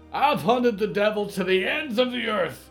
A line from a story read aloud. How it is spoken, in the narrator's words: Rick cried